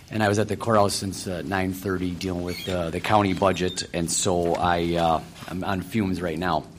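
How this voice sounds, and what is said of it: Rough, sick-sounding voice. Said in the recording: “excuse my voice. I've been dealing with the cold the last couple weeks, and it's not gotten better, it's gotten worse”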